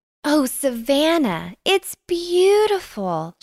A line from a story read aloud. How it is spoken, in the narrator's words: she cried